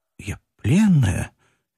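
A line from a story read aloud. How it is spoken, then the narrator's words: Barely audible. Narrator (Russian): едва слышно проговорила Катя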